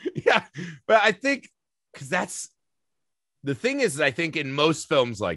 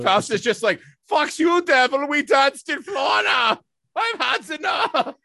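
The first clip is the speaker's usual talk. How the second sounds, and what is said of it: Character voice impression of Faust. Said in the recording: “it's a great Faust impression.”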